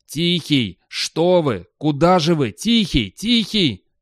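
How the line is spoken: Desperate shouting. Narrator (Russian): Отчаянно кричал он

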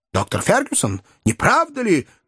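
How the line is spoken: Lieutenant shouting. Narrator (Russian): крикнул лейтенант

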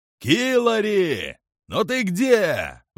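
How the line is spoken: Shouted out. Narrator (Russian): выкрикнул диспетчер

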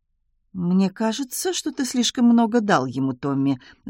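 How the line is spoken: Innocent tone. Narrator (Russian): заметила Таппинс невинным голосом

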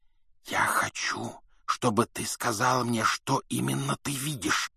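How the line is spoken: Whisper. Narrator (Russian): прошептал Гарри

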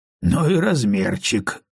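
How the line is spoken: Amused snort. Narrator (Russian): хмыкнул Том

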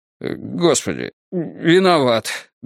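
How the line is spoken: Helpless strained. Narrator (Russian): беспомощно выдавил Страйк

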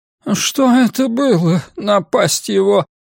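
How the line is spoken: Groaned. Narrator (Russian): простонал Джонс

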